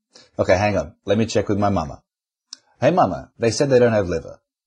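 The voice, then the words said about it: Put-on comedic accent. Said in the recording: “accent humor ... apart from obviously the excellent accent humour”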